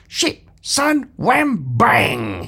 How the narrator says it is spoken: he cried

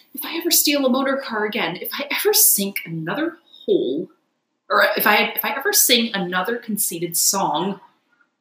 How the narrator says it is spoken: gasped poor Toad

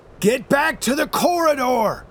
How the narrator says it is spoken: I shout

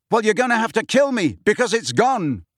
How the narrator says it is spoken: Harry roared

